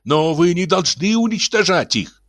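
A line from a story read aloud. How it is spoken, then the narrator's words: Shout. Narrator (Russian): закричал Реала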